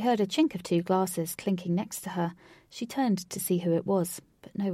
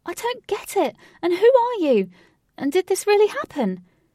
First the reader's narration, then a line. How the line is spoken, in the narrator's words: She shouted